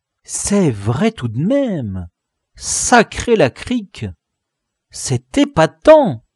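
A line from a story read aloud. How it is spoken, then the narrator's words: Exclaiming. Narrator (French): s'exclama le braque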